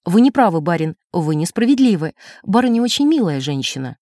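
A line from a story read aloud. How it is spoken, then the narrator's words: Stern remark. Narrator (Russian): Я строго заметила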